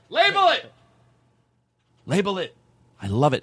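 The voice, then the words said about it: Excited yelling. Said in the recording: “I'm not yelling in a mean way. I'm yelling it, and I'm so excited.”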